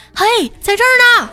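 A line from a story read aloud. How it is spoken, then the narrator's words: Loud shout. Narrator (Chinese): 大声的喊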